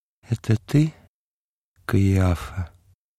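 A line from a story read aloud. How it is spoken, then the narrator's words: Sighing whisper. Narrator (Russian): Юдифь, глубоко вздохнув, прошептала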